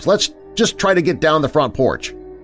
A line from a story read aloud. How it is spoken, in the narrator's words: I yelled out to Lena and Alex